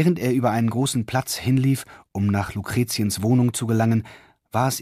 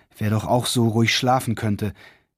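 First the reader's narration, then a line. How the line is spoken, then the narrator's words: Inward sigh. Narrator (German): seufzte Reichard recht innerlich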